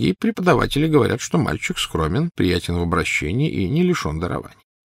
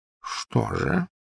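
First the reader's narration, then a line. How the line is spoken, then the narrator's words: Quiet question. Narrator (Russian): тихо спросил Дамблдор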